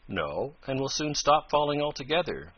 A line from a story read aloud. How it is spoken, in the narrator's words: calmly declared Tom